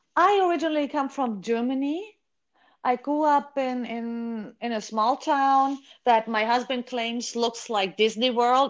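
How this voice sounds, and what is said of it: German-accented English. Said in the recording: “I get told I have an accent, and guess what? So do you.”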